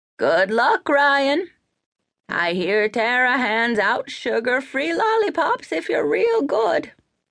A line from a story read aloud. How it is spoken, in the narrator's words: An old, croaky woman's voice called out